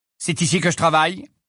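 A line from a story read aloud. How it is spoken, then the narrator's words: Curt retort. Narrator (French): répliqua sèchement M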